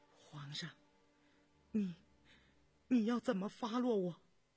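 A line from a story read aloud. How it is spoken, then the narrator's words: Trembling question. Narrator (Chinese): 引娣颤声地问道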